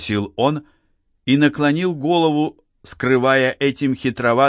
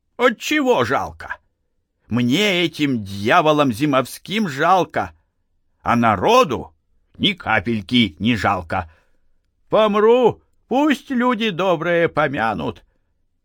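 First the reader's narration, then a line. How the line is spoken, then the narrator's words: Plain. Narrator (Russian): сказал дед Фишка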